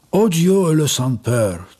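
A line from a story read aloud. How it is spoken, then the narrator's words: Heavy sigh. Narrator (Russian): тяжело вздохнула маска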